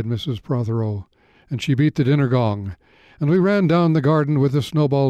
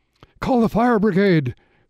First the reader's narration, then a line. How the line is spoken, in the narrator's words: cried Mrs